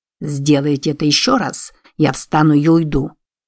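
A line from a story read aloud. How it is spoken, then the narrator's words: Hissed. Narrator (Russian): прошипел Дилс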